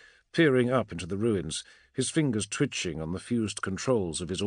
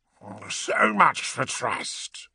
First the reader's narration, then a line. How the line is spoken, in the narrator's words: he growled